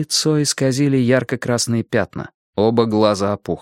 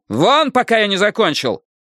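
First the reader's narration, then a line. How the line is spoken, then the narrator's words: Barking doctor. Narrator (Russian): Молодой врач рявкнул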